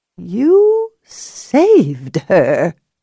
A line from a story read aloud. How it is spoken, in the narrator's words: Daisy said in a stiff voice, obviously bothered by the emotion behind the words